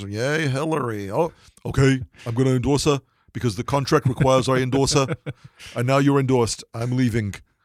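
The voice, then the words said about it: Imitates another person's voice. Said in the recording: “my Bernie imitation.”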